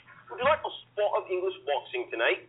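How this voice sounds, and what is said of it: Put-on English accent. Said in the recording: “I'll chuck the accent”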